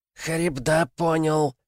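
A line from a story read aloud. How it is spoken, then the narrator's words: Hoarse mechanical voice. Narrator (Russian): сказал король ифритов хриплым механическим голосом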